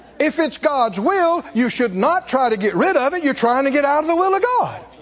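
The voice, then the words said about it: Raised, animated voice. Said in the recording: “raising my voice. ... I know I'm animated about this.”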